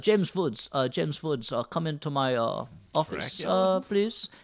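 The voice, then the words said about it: General Eastern European put-on accent. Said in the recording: “he's got a Polish accent, which I can't really do, but I'll just do a general Eastern European”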